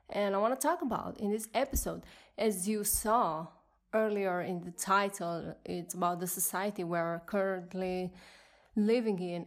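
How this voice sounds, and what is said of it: Speaks with an accent. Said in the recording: “Sorry for my accent”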